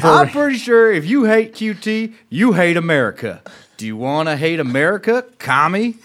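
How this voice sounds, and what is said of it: Put-on Southern American accent. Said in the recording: “We'll do a good Southern accent.”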